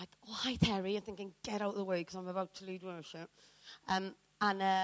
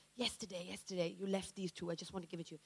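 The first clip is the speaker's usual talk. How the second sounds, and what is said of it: Put-on Singaporean accent. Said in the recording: “This is my best Singaporean accent. They sound like they're saying Keith instead of Kath.”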